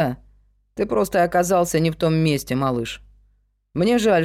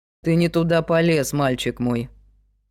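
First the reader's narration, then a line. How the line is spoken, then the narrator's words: Cold. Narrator (Russian): холодно сказал Палмер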